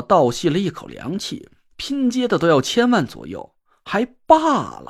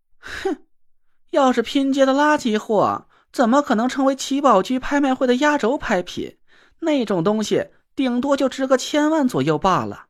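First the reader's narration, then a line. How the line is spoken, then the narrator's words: Cold sneer. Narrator (Chinese): 花姐冷笑了一声，说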